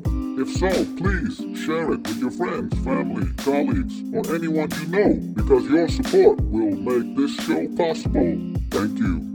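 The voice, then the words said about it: Put-on deep voice. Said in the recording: “this time with my deep voice”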